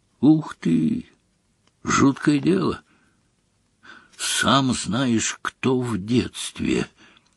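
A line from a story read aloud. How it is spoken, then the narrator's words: Quiet. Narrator (Russian): тихо сказал Рон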